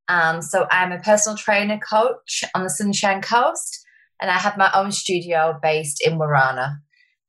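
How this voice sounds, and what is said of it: Strong English accent. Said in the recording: “from a town in called Wigan in the UK ... my accent is still very strong ... It's gorgeous. I love your accent.”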